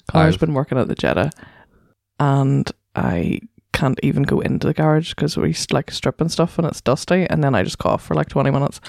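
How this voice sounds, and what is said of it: Sick-sounding voice. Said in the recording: “I've been sick all week... As you can hear... You can probably hear from my voice.”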